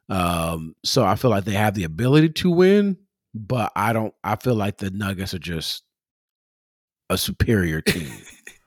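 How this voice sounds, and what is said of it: Strong Los Angeles accent. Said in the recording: “Your LA accent came out very strong.”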